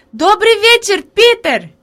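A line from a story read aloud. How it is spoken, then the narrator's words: Girl shouting. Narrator (Russian): Девочка крикнула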